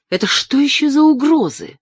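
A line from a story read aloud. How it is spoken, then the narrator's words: Indignant whisper. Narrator (Russian): возмущенно шепнула Нина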